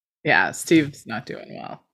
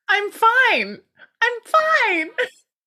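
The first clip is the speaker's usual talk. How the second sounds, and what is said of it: Unusually high-pitched voice. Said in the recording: “I don't know why my voice is so high.”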